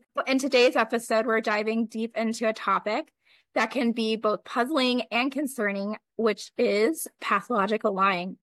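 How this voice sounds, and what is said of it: Hoarse, fading voice. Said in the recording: “I don't know if you heard my voice, Erica, but I'm still losing my voice... just recovering being sick... I'm literally losing my voice”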